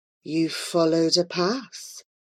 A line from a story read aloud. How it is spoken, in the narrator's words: murmured